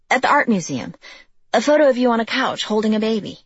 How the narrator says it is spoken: she blurted out

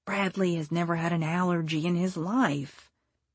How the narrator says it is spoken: whispered back to her

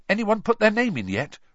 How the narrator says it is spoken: Ron asked eagerly

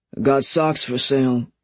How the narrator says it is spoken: he slurred

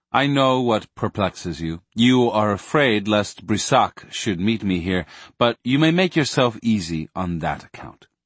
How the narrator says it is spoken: Gramont said calmly

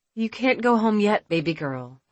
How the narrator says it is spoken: Alexis said, speaking in a calm voice

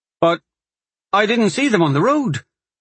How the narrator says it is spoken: Corin sputtered

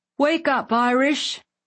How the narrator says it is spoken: he yelled

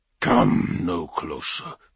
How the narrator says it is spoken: he growled

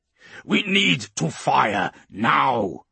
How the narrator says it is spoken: he growls

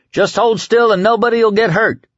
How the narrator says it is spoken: Lloyd shouted

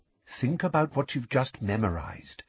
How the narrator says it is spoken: said Lupin quietly

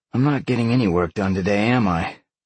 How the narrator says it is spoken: Sean sighed

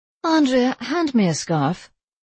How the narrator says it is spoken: sigh

